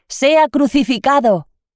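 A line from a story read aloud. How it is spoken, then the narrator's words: Crowd shouting louder. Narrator (Spanish): gritaban más fuerte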